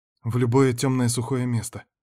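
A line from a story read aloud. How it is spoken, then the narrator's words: Agitated reply. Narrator (Russian): ответила Карин взволнованно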